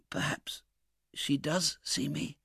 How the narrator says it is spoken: whispered Oliver

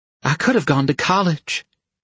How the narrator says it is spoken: said wistfully

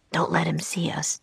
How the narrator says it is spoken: Jack whispered

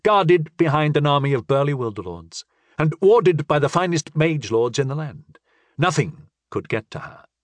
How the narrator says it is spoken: I assured him calmly

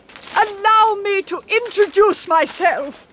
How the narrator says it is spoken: cried Addie

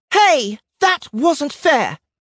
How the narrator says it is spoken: Donut cried

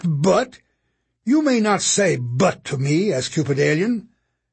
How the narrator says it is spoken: Curtin snapped

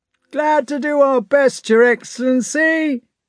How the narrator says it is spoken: came a confused shout from the ranks

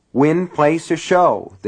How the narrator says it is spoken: the teller repeated impatiently

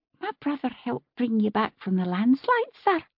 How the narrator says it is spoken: one wee girl poked her head out from behind Harriet's apron and said brightly

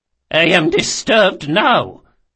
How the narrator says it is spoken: she spat

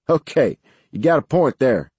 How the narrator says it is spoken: Laughing, Jeff replied

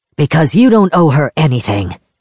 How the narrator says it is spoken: Kalyan snapped

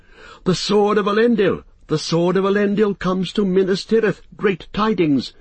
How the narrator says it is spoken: Some cried aloud

